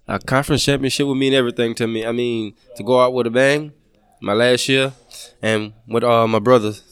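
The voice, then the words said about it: Louisiana Southern US accent. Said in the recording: “I can tell by your accent where you're from ... go back to your home state”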